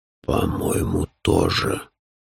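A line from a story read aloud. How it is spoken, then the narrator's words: Low hoarse voice. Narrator (Russian): подтвердил низкий хриплый голос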